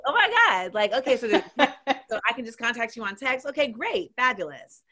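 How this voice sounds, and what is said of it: Polite customer service voice. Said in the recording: “My LA voice is, like you said, it's the customer service voice.”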